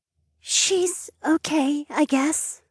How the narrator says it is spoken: Mary answered in a breathy voice that I had to lean in to hear

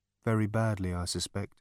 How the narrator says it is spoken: muttered Marvin

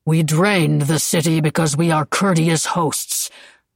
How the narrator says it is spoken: Le Simon said, his voice unexpectedly deep

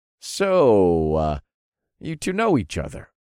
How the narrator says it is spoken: I chuckled

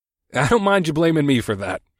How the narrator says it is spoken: I chuckled

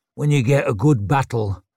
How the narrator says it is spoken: grunted Downside

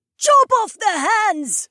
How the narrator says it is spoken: the old woman screamed

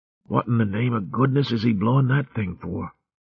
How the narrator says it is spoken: Clucky whispered to Martin

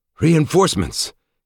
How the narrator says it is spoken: gasped Kent with equal pleasure

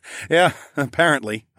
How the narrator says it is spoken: I chuckled

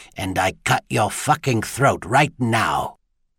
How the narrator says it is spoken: a voice hissed in his ear

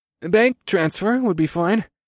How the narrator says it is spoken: I said in a strained voice as I fought to keep my words casual

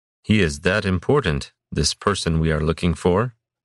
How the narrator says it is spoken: Rakashi asked, speaking in Kadrin with a Tikalish accent

